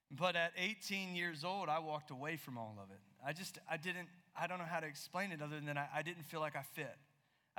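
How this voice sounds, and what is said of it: Southeastern US accent. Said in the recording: “you're hearing my accent, you're thinking that guy is not from California”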